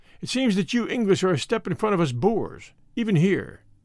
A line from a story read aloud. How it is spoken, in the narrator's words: Dinjan exclaimed with a grunt